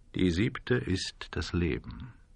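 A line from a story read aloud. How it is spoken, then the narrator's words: Man speaking quietly. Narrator (German): sagte der Mann in Schwarz leise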